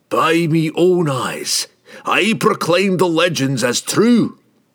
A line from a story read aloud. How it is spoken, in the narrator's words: he shouted boldly